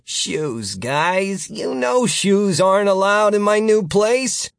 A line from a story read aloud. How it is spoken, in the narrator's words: Gary whined